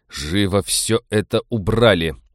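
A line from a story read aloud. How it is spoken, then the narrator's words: Growl. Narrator (Russian): прорычал Станислав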